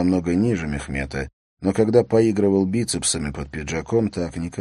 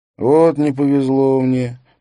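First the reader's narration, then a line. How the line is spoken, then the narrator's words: Drawled. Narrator (Russian): протянул Бэнкс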